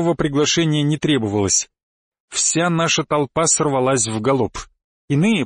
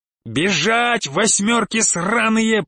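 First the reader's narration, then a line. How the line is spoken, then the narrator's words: Urging roar. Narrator (Russian): проревел я, подгоняя остальных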